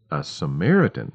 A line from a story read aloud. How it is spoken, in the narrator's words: cried out in disappointment